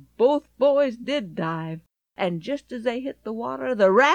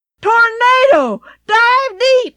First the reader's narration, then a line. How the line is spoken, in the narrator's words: Ken shrieked